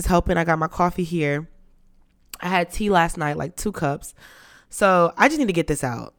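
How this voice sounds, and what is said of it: Sick, deeper than normal voice. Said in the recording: “it's gonna ruin my voice... Something is going on with the tonsils down here... I'm just doing it in a deeper voice right now. So this is not my normal voice”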